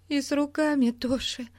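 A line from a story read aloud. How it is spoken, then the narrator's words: Trembling voice. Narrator (Russian): сказала Бетти дрожащим голосом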